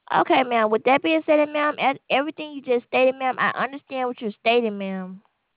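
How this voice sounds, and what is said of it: Strong accent, hard to understand. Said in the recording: “I cannot understand you... your accent is very nice. I just can't understand it.”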